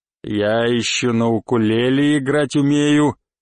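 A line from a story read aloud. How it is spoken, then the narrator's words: Pleased growl. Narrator (Russian): прорычал он довольным голосом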